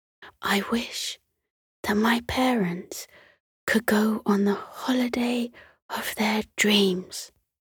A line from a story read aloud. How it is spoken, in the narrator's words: she whispered